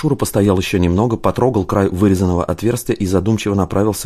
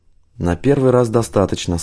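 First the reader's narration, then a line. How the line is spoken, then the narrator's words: Muffled, slightly dull voice. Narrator (Russian): сказал Старостин глуховатым голосом, пряча подбородок под шарфом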